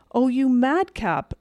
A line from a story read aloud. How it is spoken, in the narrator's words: exclaimed the elder girl